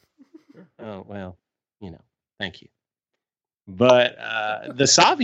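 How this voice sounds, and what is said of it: Usual voice. Nothing is said of it.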